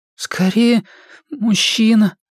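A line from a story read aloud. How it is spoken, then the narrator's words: Trembling, tearful voice. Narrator (Russian): дрожащим голосом ответил Стэн, левой рукой вытирая с лица слезы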